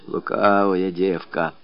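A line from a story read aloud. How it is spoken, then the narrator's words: Old woman grumbling. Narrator (Russian): ворчала старуха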